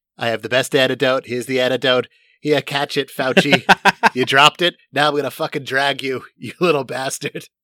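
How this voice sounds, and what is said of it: Impression of a fictional president. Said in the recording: “Was that your Bartlett impression? ... That's actually pretty good.”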